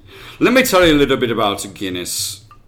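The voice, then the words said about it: Put-on Irish accent. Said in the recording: “That was Irish accent again... you sounded bohemian”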